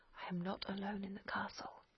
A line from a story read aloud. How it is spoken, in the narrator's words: The father … he whispered